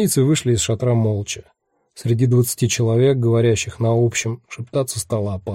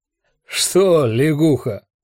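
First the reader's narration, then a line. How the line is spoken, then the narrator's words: Big man barking. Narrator (Russian): гаркнул здоровяк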